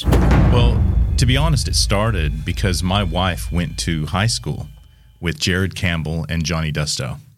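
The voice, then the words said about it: American accent, not Australian. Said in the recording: “I'm not Australian, as you can probably tell by my accent ... I am from Seattle.”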